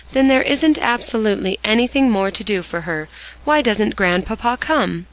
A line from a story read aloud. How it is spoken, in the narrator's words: said Polly with a sigh